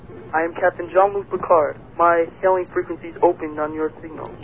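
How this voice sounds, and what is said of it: Poor young-sounding Picard impression. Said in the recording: “No, you're not. Jean-Luc Picard is this really cool Shakespearean sort of accent. ... No, that's Julia Child. ... No, that's prepubescent Jean-Luc Picard.”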